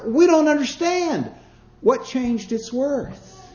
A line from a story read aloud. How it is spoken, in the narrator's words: some of them cried